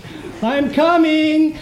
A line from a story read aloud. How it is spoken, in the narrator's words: I yelled